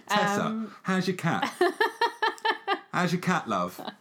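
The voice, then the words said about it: Mock bad English accent. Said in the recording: “the girl's accent. ... You don't need to be English. ... That was all over the shop.”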